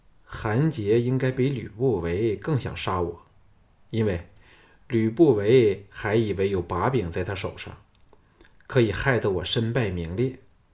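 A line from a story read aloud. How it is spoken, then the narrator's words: Calm, indifferent. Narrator (Chinese): 项少龙淡淡的说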